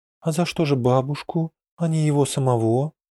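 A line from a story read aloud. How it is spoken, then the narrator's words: Timid daughter-in-law asking. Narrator (Russian): робко спрашивала сноха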